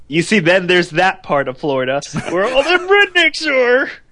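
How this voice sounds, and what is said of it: Good impersonation of a redneck. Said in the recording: “That was a good impersonation.”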